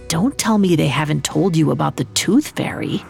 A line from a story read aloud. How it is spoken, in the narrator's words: David leaned in close to whisper